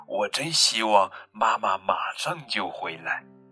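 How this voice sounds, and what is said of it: Soft whispered voice. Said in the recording (Chinese): “小声”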